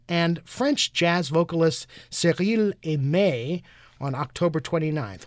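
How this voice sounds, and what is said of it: Put-on French accent. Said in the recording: “I love your French accent.”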